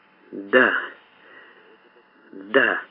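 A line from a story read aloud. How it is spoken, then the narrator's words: Breathy exhale. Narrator (Russian): выдохнула мадам Бланш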